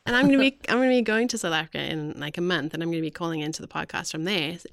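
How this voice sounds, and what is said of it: Slight South African accent. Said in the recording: “I was born in South Africa, which is why every now and then you hear a little bit of an accent... it comes back stronger... It really is... It's coming back now... It is right now.”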